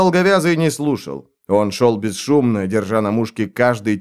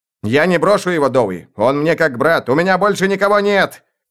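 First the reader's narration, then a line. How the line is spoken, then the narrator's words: Emotional shout. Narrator (Russian): В эмоциях прокричал Штырь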